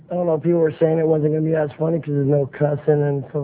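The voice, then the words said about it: Hoarse, fading voice. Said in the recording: “I'm losing my voice too. Can you hear it? ... it sounds kind of sexy”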